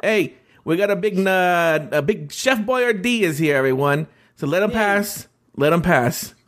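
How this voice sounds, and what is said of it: Put-on Chicago accent. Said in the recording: “How do you do a Chicago accent?”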